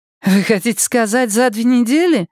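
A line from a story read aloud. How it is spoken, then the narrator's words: Snorting. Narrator (Russian): фыркнула Дакота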